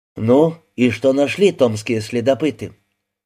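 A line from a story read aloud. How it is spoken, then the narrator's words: Sighing. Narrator (Russian): Сергей вздохнул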